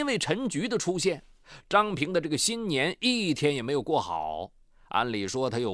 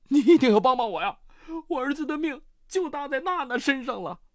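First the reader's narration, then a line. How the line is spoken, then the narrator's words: Desperate pleading. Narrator (Chinese): 他又苦苦哀求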